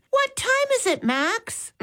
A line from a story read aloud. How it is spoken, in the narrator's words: Molly called out